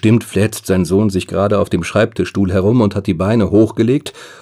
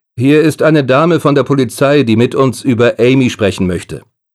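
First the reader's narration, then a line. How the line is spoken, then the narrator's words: Calling through closed door. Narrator (German): ruft David durch die geschlossene Tür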